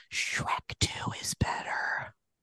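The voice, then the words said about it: Whispering quietly. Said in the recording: “I hope you can hear my whisper. I'm afraid to say it louder.”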